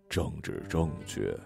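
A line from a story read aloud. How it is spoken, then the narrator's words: Low voice. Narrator (Chinese): 主任低声说了一个词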